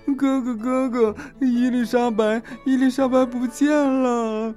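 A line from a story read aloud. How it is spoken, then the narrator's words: Sobbing. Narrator (Chinese): 苏西大哭着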